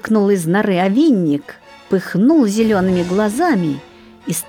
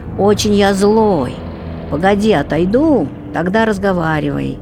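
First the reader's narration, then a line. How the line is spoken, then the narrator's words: Snorting shout. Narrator (Russian): Фыркнул овинник, кричит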